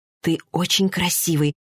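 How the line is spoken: Whisper. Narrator (Russian): прошептала

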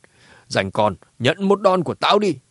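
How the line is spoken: Old woman's angry shout. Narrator (Vietnamese): Bà cụ kia nhíu mày cả giận quát

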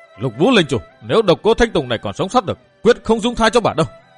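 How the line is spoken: Loud shout. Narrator (Vietnamese): Chàng hét to

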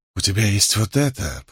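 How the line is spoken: Purring. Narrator (Russian): промурлыкала женщина

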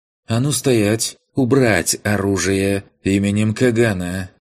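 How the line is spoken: Sharp, slightly husky female voice. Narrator (Russian): Приятный женский голос с легкой хрипотцой выстрелом разорвал повисшее над поляной напряжение

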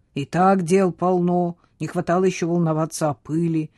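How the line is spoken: Grumbled. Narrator (Russian): проворчал Самюэль

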